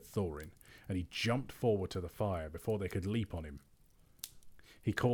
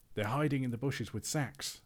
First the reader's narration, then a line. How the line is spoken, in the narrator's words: said he